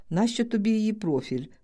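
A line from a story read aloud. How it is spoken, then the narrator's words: Asking while laughing. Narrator (Ukrainian): питала і сміялася я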